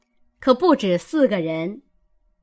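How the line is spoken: Laughing. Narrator (Chinese): 王夫人笑道

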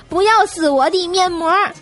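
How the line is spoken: Shouted. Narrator (Chinese): 喊了一句

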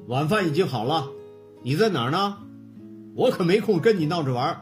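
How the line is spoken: Stern voice. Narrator (Chinese): 爸爸的声音非常严厉

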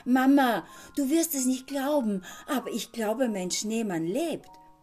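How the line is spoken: Excited call. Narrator (German): rief aufgeregt

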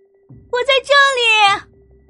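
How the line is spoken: Loud shout from upstairs. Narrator (Chinese): 楼上有人大声的喊

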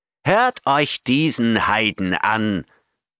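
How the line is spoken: Roaring. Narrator (German): brüllte er

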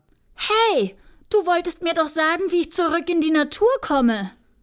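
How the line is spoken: Called out. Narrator (German): rief Alexia

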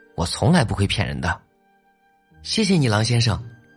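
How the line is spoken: Gentle. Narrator (Chinese): 大灰狼温柔的说

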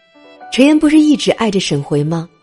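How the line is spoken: Crowd laughing and teasing. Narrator (Chinese): 所有人都笑起来，各种起哄

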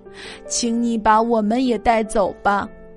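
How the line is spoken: Elderly tearful pleading. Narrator (Chinese): 老爷爷和老奶奶哭求说

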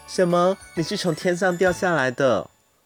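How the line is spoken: Embarrassed reply. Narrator (Chinese): 我不好意思地回答说

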